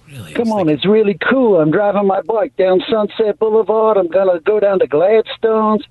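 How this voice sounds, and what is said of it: Australian-sounding imitation of a singer. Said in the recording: “it's obviously some kind of Australian ... he's trying to do an Australian accent ... it sounded like Paul Hogan ... Trying to do Billy Idol ... He's got more of a raspy voice”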